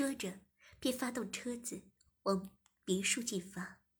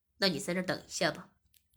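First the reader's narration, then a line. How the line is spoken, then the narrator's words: Smiling. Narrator (Chinese): 我笑了笑，并说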